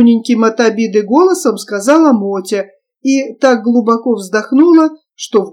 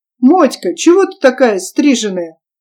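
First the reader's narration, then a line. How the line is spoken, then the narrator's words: Boy asking with insulting giggle. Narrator (Russian): Как мальчик оскорбительно хихикая спросил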